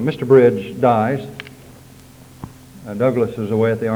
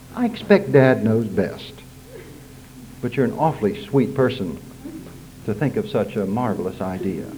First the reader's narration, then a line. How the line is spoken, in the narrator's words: saying gently